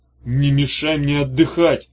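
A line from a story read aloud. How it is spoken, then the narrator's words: Growling. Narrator (Russian): рычал Иссерх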